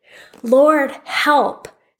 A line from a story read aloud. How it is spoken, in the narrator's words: they cried in their trouble